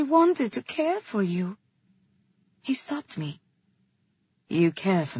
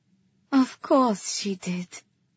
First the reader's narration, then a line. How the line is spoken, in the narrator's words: I said, smiling softly at him